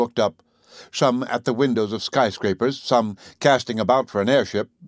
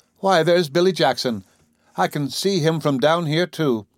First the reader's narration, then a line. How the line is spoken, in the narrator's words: Miss Leeson looked up into the firmament and cried with her little gay laugh